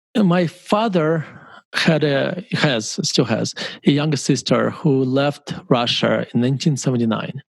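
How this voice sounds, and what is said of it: Russian accent. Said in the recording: “I still have an accent. If I left when I was 12 or 13, the accent probably would be gone”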